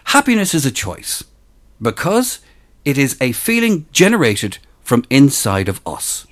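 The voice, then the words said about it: Polished radio announcer voice. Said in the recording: “You have such a radio voice.”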